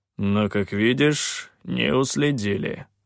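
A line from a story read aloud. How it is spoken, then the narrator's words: Gloomy grumble. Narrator (Russian): мрачно проворчал Калан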